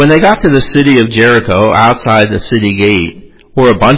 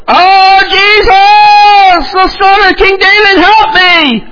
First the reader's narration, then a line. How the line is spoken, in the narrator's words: he cried out loudly